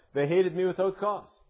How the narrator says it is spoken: cried out

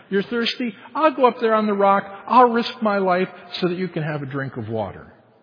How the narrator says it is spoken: a good father who says to his whining child

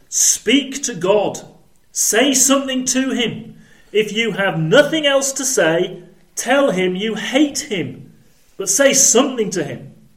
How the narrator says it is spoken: he shouted

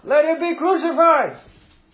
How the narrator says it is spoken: they shouted all the more

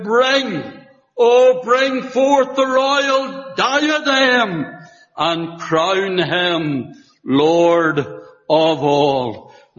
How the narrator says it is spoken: with her last breath, she cried out

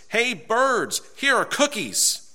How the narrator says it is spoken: He shouted in a loud voice

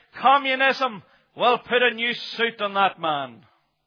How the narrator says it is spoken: the communist, he shouted out

